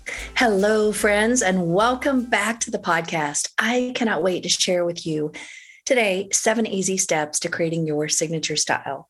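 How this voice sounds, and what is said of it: Slightly hoarse voice. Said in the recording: “my voice sounds a little hoarse today because I've had some sinus issues”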